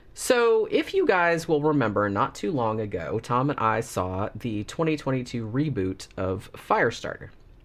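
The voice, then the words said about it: Slightly funny-sounding, congested voice. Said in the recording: “my voice sounds a little bit funny. I have a little bit of a cold ... it is making my voice sound a little bit funny”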